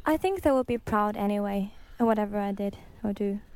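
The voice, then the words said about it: Norwegian accent. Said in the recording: “You detect an accent... You're from Norway.”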